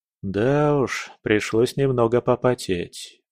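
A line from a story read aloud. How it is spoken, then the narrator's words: Tired admission. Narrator (Russian): устало признался я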